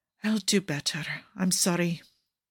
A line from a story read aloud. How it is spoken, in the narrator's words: he whispers